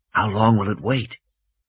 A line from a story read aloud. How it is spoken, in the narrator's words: Malcolm whispered